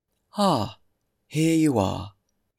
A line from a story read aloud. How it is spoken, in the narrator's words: he exclaimed